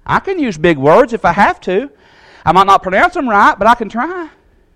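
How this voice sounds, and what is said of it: Southern US accent. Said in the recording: “People make fun of the way I talk sometimes. T-A-W-K, talk. That's how we say it... in the southern accent”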